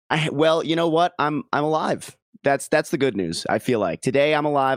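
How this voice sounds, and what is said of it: Worn-out, rough voice. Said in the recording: “My voice is all F from yesterday.”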